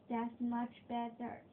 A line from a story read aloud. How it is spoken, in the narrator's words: he said